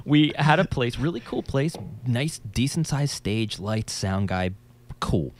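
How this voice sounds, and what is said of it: New Jersey accent. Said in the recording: “I'm from New Jersey. If you couldn't tell by my accent.”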